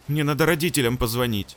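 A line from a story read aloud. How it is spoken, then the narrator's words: Frightened girl. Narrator (Russian): испуганно заявила девочка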